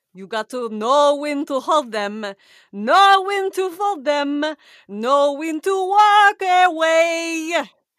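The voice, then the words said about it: Sings in bad Eastern European accent. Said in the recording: “a really bad Eastern European accent that's nondescript while singing Kenny Rogers”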